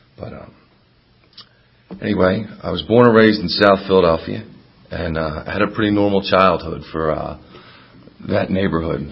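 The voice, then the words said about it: Raspy, hoarse voice. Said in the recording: “Pardon my raspy voice, I'm a little sick these days.”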